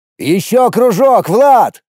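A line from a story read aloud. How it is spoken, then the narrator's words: Yelling. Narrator (Russian): заорал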